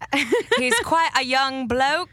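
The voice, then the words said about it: Clumsy put-on accent. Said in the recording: “I don't know how to do accent.”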